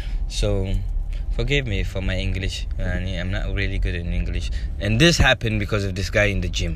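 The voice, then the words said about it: Arabic accent in English. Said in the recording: “I sound like Arabic now. Yeah, I mean, I have an Arabic accent.”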